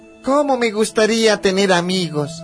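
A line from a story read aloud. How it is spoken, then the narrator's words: Sighing. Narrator (Spanish): suspiraba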